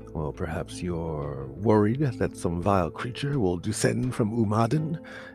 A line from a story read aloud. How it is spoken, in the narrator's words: Alexander chuckled